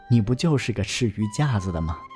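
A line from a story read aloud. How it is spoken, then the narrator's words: Joking. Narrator (Chinese): 母亲有时候和父亲开玩笑说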